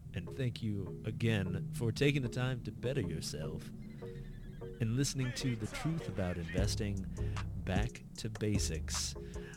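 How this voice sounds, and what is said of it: Polished radio announcer voice. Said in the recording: “I'm using my radio voice.”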